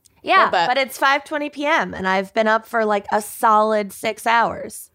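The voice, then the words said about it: Scratchy, just-woke-up voice. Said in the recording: “My voice sounds a little scratchy today ... Sounds like you just woke up. This is your just woke up voice.”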